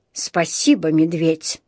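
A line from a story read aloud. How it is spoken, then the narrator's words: Gruff mutter. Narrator (Russian): буркнул мистер Карри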